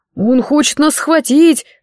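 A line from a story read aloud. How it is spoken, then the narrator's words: Yell. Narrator (Russian): завопил Морт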